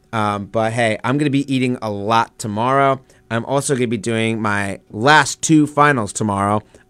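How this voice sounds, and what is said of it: Hoarse, tired voice. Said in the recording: “I am losing my voice, and I am also tired”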